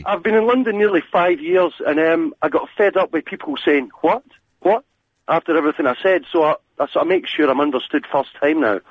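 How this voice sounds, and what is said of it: Light, high-pitched Scottish accent. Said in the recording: “you're Scottish ... your accent sounding quite poetic and quite light and fruity ... a Scottish accent makes men sound slightly more effeminate than they are ... It's because it's quite high.”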